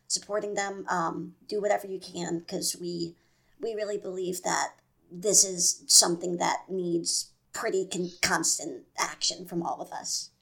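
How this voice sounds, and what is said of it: Hoarse, strained voice. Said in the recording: “my voice is fucked up. Um, that is from yelling”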